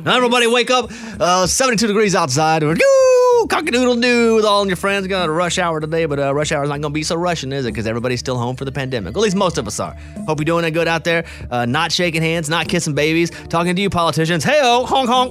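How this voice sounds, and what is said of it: Old school radio DJ voice. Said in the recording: “Should I do DJ voice or no? ... do the DJ ... That's like old school DJ.”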